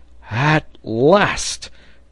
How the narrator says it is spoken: cried Pencroft

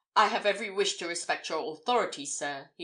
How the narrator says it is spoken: he exclaimed

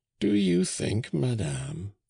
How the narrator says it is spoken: answered Auchan in a mild voice

